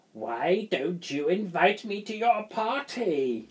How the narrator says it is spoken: thundered

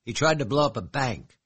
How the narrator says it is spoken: snapped

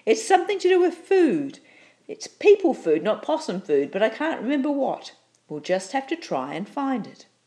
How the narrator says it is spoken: she shouted

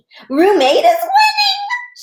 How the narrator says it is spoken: she said real squealy

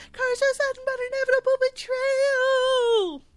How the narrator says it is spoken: He yells at the skies

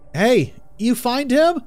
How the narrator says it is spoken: called out

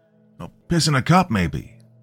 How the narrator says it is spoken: shouted another

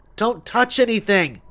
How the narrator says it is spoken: she cried out

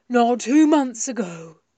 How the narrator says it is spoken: said Milo gruffly

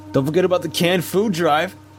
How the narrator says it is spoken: said, giggling

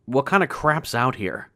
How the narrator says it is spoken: I asked finally

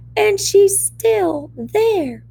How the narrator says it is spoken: cried Wee Baby Bear

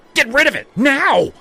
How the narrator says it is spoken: shrieked

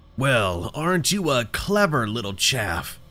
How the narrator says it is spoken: the man sneered

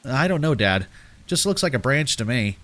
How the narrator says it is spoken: I say, trying to keep my voice neutral

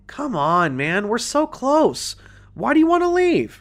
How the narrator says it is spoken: pleaded

